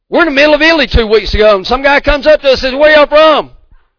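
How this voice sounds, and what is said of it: Southern American drawl. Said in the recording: “southern accent, southern drawl”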